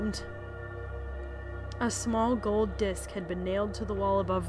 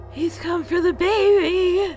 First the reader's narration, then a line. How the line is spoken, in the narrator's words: Emily shrieked